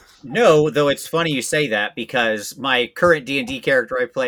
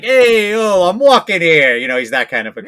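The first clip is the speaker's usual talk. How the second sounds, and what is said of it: Put-on New York Italian accent. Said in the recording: “all Grungs speak with a sort of New York Italian accent all the time. So yes, that is my accent for that character”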